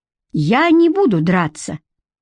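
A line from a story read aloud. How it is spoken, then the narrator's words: Sudden loud, clear. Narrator (Russian): вдруг громко и четко сказал Федька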